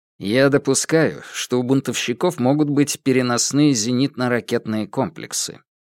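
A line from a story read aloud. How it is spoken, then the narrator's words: Dry. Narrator (Russian): сухо произнес директор Московского бюро биобезопасности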